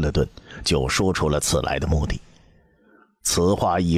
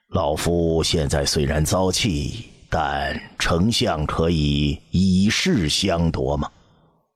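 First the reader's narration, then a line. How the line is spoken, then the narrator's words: Slow, suppressed anger. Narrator (Chinese): 窦婴强压住心头的怒火，尽量让自己的情绪平和一些，缓缓道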